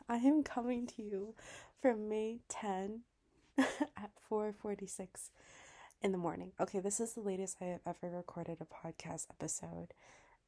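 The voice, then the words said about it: Slightly raspy voice. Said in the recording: “my voice is like a bit raspy, sounds a little bit different ... recovering from a cold”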